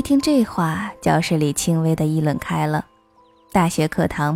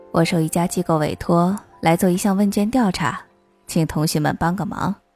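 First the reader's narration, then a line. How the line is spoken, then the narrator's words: Smiling. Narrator (Chinese): 教授面带微笑对我们说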